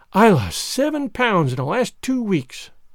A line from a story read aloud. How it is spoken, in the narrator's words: sighed Jane